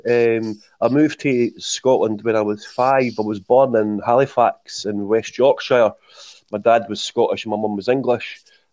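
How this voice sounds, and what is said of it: Strong Scottish Leith accent. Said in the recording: “my strong Leith accent”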